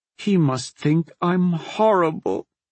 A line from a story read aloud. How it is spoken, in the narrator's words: she sobbed to herself